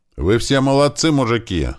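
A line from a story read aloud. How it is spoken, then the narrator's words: Joyful shout. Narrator (Russian): радостно кричал Туман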